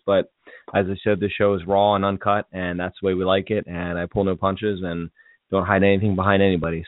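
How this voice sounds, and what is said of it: Slightly hoarse voice. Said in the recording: “I do apologize if I sound a little bit hoarse. I've been battling some kind of sinus thing ... my voice is a little bit hoarse.”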